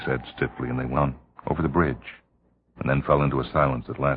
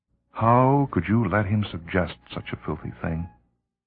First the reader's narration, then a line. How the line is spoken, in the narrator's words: He laughed bitterly